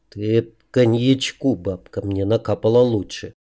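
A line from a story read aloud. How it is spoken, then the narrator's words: Muttered under breath. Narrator (Russian): пробурчал я тихо себе под нос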